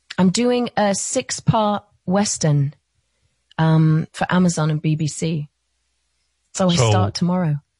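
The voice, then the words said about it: British accent. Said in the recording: “you got to lose the British accent for that too, right? ... So I get to stick with this.”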